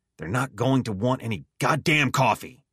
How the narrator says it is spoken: snapped

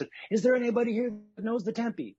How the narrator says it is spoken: screamed into the house, into a black, said

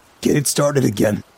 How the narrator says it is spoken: Human Johnny pleaded

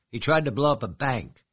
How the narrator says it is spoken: she snapped

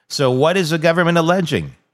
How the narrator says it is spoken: He exclaimed, half shouting in disbelief

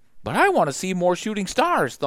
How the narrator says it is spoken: Thumper whined

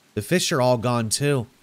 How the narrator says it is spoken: Jesse sighed

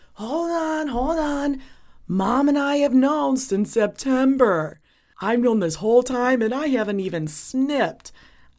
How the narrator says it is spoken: Cody literally yells

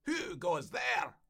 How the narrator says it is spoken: the Highway Rat, who cried out

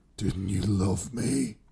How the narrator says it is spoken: Joan rasped from the man's throat

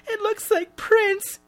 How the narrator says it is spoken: she sobs

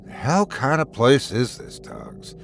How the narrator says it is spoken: I murmur anxiously

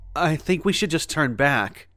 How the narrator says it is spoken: panted, the long hike and rough terrain wearing on me

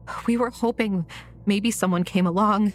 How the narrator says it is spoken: Leah said, her voice trembling

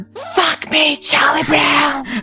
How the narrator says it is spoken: She leaned over him and whispered

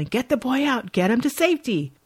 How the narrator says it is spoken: yelling

